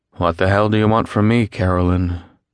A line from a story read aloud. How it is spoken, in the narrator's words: he asked her, his voice lacking the emotions that the words demanded